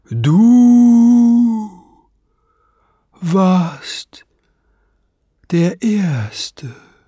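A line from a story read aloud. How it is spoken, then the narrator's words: Calling out again. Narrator (German): rief er noch einmal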